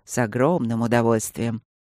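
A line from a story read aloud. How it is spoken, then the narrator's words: Soft. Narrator (Russian): мягко сказал Люк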